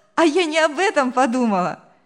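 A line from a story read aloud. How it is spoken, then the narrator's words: Cheerful laughing girl. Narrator (Russian): весело рассмеялась девушка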